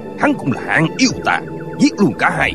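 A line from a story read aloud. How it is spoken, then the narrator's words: Shouting. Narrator (Vietnamese): Tân Quốc Lương quát lên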